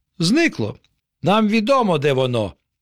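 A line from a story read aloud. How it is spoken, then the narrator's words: Exclaiming in chorus. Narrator (Ukrainian): вигукнули опеньки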